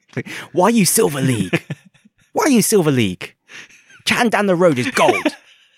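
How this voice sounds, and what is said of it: Put-on Chinese accent. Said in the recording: “No one talks like this. ... I don't have the accent, but I'm Chinese too”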